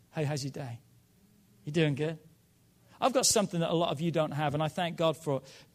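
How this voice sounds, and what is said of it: Speaks with a distinctive accent. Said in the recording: “my accent... your voice is incredible... I love how you speak”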